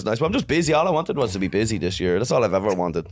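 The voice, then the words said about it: Noticeable accent, sounds intelligent. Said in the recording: “you got an accent. ... listen to how he sounds. He's intelligent.”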